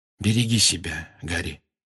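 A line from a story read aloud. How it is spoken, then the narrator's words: Quiet. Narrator (Russian): негромко сказал Люпин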